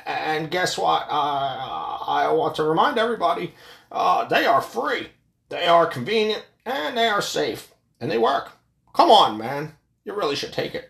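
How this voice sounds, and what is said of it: Joe Biden impression. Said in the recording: “my Biden impression”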